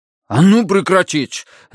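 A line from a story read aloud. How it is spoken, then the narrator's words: Barked. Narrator (Russian): рявкнул он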